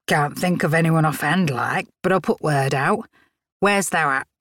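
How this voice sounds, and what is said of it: Thick regional English accent. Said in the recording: “the woman's thick accent”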